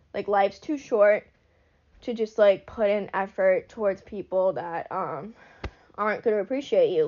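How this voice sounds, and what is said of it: Breathless, congested stuffed-up voice. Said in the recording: “I'm so out of breath, ... I'm, like, all stuffed up, so I can't breathe”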